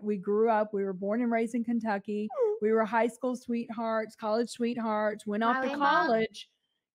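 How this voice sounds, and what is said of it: Slight Southern US accent. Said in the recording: “you might detect a little accent, a little Southern accent.”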